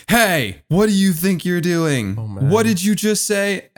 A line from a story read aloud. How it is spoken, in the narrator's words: 40-year-old guy from across the beach, just yells out